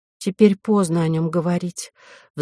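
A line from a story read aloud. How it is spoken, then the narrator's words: Sighing. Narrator (Russian): вздохнула Вероника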